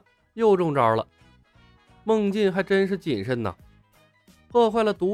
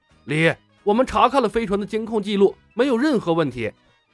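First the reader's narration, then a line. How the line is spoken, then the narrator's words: Loud complaint. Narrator (Chinese): 奎尔大声抱怨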